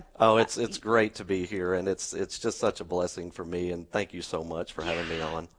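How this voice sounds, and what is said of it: Southern rural American accent. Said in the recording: “He's the one with the accent. ... The redneck accent”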